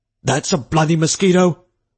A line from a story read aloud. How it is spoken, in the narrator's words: Oglethorpe cried